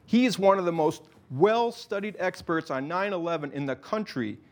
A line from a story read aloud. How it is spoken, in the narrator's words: Martin shouted